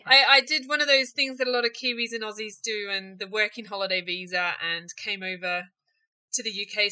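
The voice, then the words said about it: New Zealand accent. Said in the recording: “As you can tell from my accent, I'm not a local girl. Born and bred in New Zealand”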